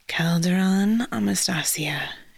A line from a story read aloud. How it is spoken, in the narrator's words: she whispered